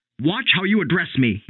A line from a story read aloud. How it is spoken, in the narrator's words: he snapped